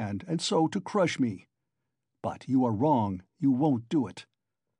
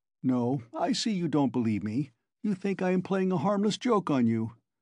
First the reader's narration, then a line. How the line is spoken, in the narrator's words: Porfiry began again, getting more and more lively, chuckling at every instant